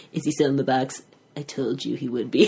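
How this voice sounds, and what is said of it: Imitates another person's voice. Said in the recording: “That's the best impression”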